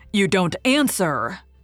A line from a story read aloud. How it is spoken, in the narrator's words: he said angrily and unhappily